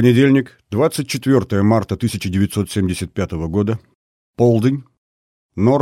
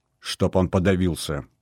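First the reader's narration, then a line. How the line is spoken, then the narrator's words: Grumbling mutter. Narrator (Russian): пробурчал Регев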